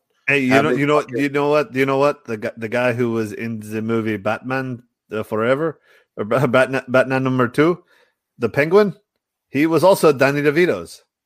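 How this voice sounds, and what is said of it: Bad put-on accent, growing stronger. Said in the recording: “The first half of that line, by the way, was a very, very bad accent. ... And then you leaned into it more towards the end of that sentence. ... I had no idea what the fuck you were saying.”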